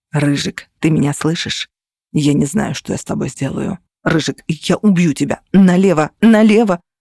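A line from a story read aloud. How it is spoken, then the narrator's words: Threatening whisper. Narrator (Russian): шептал голос, обещая мне целый список кар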